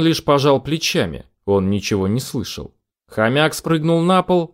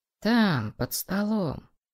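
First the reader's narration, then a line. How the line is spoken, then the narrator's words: Quiet speech. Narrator (Russian): тихо проговорил Федор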